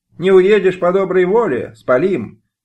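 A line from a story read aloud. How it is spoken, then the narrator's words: Threat shouted after someone. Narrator (Russian): крикнули Адаму Киселю вдогонку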